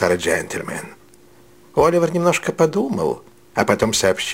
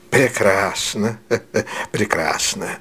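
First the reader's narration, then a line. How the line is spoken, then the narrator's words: Old man, laughter just stopped. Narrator (Russian): сказал старый джентльмен, перестав смеяться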